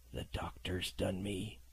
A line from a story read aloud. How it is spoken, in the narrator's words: he murmured